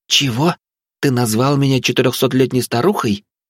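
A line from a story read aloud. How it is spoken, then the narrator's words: Uncertain suggestion. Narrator (Russian): неуверенно предположил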